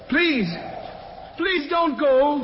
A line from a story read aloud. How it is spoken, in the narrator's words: he cried out after him